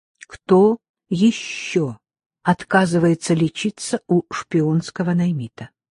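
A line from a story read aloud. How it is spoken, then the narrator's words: Quiet, clear question. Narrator (Russian): Она спросила тихо и внятно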